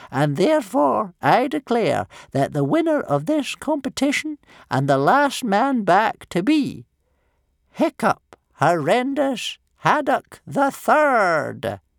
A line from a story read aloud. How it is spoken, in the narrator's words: cried Old Wrinkly solemnly in his ancient old quavering voice